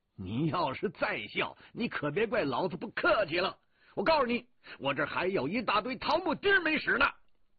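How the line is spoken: Loud cursing. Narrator (Chinese): 我大声骂着

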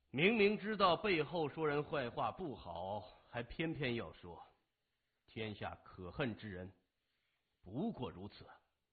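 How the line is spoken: Cool, detached. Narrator (Chinese): 他淡淡地说

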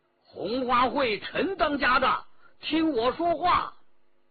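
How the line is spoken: Calling out. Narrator (Chinese): 有人叫道

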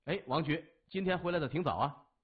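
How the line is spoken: Surprised, then smiling. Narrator (Chinese): 先是一愣，接着一笑说

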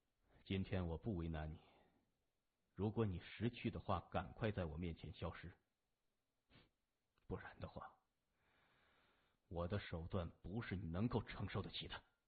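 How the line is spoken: Soft, sinister. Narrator (Chinese): 他声音阴柔地说

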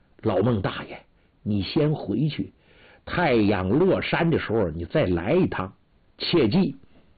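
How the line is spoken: Low, hushed voice. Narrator (Chinese): 建梅压低声音

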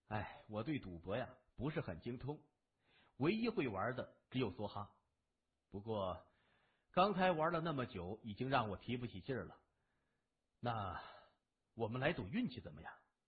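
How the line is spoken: Sighing. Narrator (Chinese): 谢文东叹口气说

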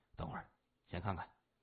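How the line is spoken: Softly. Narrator (Chinese): 谢文东轻声说

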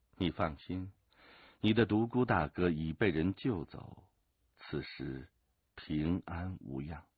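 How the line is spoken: Calm, flat. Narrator (Chinese): 陈随云淡淡地说

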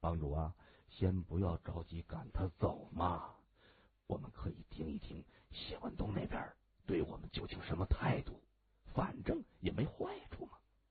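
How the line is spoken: Whispering. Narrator (Chinese): 王龙堂却心存顾虑，他趴在萧雅的耳边轻声说

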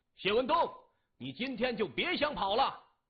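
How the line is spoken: Loud roar. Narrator (Chinese): 李旺也大吼一声

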